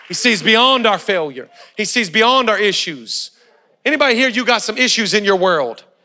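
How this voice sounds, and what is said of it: Black preacher-style accent. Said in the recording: “where did you get your accent? I love your accent. ... I'm a white guy that wants to be black ... I always wanted to be a preacher and I always wanted to be black”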